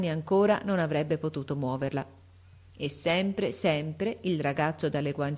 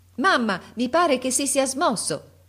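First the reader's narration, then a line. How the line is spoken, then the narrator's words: Shouted. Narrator (Italian): gridò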